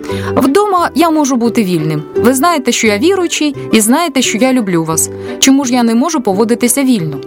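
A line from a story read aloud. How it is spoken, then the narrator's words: Shouting. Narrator (Ukrainian): він крикнув до Наді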